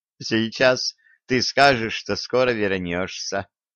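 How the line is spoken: Laughing. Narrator (Russian): Продолжала смеяться

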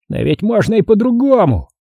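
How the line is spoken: Exclaimed. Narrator (Russian): воскликнул Хорт

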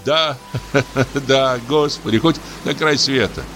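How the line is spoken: Laughing. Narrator (Russian): засмеялся дьякон

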